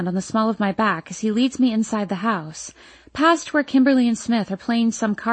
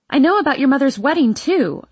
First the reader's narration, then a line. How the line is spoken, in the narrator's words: I blurt